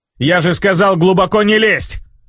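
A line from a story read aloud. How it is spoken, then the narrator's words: Bark. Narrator (Russian): рявкнул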